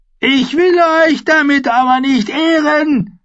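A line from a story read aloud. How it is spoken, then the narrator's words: Shout. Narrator (German): schrie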